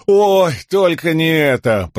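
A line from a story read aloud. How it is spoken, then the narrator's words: Groaning. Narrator (Russian): простонал Лопан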